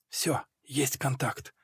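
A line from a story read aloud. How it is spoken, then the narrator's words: Whisper. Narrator (Russian): шепнул мне Толик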